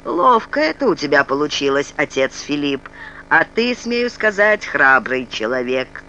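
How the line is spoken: Deep bass male. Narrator (Russian): черномазый Отто пробасил

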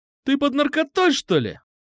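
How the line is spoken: Shrieked. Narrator (Russian): взвизгнул Петрушка

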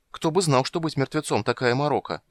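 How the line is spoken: Exclaiming. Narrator (Russian): воскликнул Кендер

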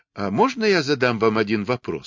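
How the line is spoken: Plain. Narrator (Russian): спросила она

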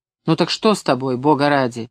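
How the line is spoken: Irritated question. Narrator (Russian): раздраженно спросила

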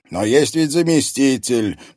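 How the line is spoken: Grumbling old man. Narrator (Russian): продолжал ворчать старик

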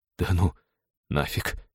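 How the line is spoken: Trembling-lipped mutter. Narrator (Russian): Трясущимися губами пробормотал кибертехнолог

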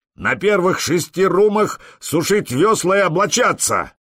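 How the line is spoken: Roared. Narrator (Russian): проревел Простен

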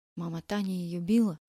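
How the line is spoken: Whisper. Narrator (Russian): шепотом сказал Игорь

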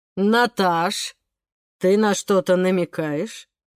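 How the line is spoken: Calm, hidden displeasure, father. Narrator (Russian): Голос папы звучал спокойно, но интонация выдавала, что реплика Семашка ему тоже не понравилась

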